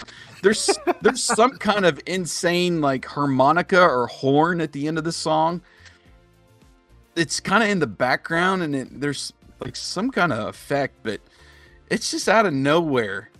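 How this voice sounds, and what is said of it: Hoarse, worn-out voice. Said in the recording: “my voice is already gone”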